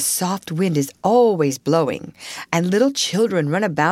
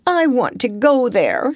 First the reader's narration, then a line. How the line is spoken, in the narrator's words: she cried